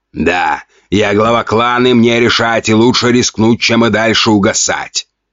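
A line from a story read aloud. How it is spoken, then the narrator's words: Stern. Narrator (Russian): строго ответил Ген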